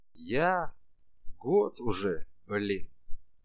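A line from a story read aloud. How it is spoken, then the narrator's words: Plain. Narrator (Russian): сказал мужик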